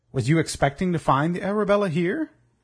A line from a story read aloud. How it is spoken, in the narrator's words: Wolverstone laughed and spoke loud enough to be heard by all around him